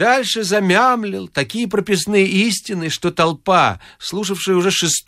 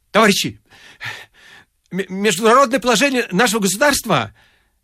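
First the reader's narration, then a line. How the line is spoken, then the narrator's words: Stammering. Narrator (Russian): Триухов, запинаясь, заговорил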